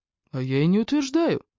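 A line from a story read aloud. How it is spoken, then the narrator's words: Calm. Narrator (Russian): спокойно ответил Фрэнк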